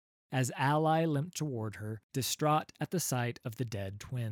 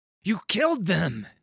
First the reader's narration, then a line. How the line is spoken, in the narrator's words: he cried